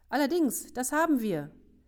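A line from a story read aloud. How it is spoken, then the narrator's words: Calling from behind. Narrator (German): rief Ben von hinten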